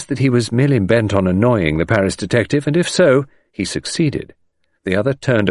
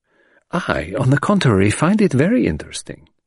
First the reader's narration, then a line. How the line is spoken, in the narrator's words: said Poirot sweetly